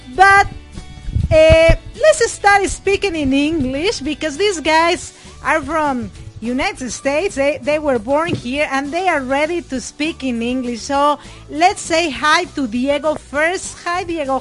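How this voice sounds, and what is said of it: Strong non-native English accent. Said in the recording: “It's kind of a struggle to hear my mom with that accent of hers”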